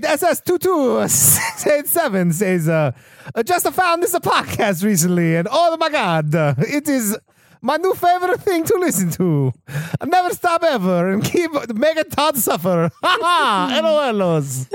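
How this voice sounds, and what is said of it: Put-on Italian accent. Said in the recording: “I'm going to choose Italian ... Oh, yeah, I'm doing Italian.”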